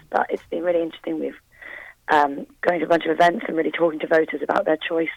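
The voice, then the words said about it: Husky, hoarse voice. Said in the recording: “losing my voice, even more husky than usual”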